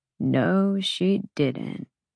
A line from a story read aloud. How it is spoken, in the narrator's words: Emmett murmured